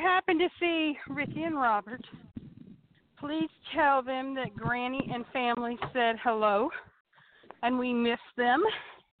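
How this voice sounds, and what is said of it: Out of breath, breathy speech. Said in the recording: “I'm a little out of breath. I've been walking”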